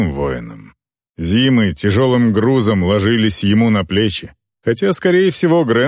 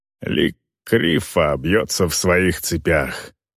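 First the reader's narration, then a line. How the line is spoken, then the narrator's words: Muttered. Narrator (Russian): пробормотал Грант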